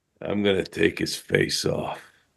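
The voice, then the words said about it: Imitates another person's voice. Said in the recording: “world's worst Nick Cage impression ... That was horrible.”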